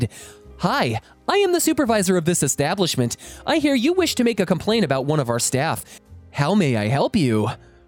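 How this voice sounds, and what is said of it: Polite customer-service voice. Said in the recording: “calmly pointed to my name badge, and smiled, and in my best retail voice”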